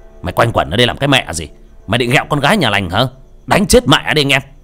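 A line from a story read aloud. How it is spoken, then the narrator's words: Loud blaring shout. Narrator (Vietnamese): Công bô bô cái miệng quát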